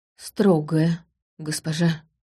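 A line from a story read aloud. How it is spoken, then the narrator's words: Words forced out. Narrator (Russian): выдавил он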